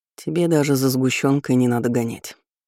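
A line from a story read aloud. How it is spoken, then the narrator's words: Gloomy remark. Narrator (Russian): заметил мрачно, переставая улыбаться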